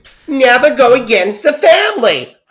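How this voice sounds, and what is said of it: Put-on New Jersey accent. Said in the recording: “Please excuse that accent. ... reading for the part of Jersey Housewife”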